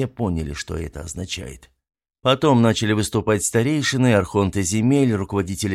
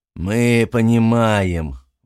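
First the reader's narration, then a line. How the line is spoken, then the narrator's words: Grim, stooped old man. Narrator (Russian): мрачно ответил ему согбенный старец Амвросий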